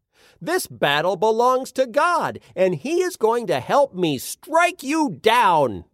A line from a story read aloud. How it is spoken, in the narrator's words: David yelled